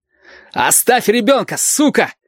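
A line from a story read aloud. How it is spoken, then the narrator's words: Strained shout. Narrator (Russian): надсадно крикнул Валентин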